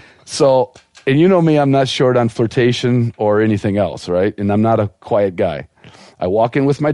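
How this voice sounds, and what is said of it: Usual voice. Nothing is said of it.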